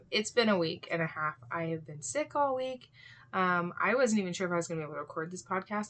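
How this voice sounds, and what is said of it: Hoarse, raspy voice. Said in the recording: “I still sound kind of hoarse and raspy and there's a frog in there ... it sounds like I have a frog in my throat”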